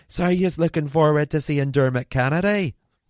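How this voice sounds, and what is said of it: Attempted Scottish accent, sounds Irish. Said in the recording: “That was more of an Irish accent, wasn't it? How can I do a Scottish accent? ... Oh, that sounds exactly the same.”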